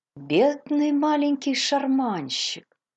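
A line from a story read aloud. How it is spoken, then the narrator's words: Sympathetic, full of pity. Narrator (Russian): сочувствующим голосом, полным жалости, отозвалась Мейбл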